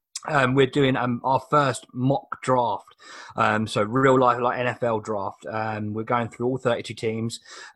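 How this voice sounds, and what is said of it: Hoarse, throaty voice. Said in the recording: “I've got a frog in my throat this morning”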